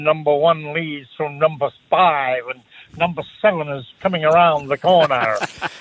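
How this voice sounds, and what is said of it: Put-on Texan American race-caller accent. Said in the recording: “There's that Northern English accent you had last week. ... No, mate, that's Texas.”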